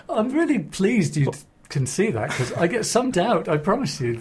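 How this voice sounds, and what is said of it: Scottish accent. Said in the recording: “I've detected from your accent that there's an element of Scotch there.”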